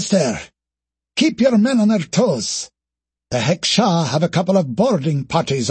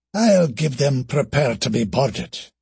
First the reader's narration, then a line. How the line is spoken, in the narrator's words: muttered Kate